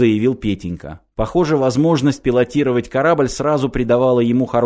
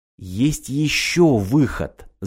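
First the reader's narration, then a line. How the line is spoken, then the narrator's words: Conspiratorial female whisper. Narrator (Russian): заговорщицки прошептала Ирина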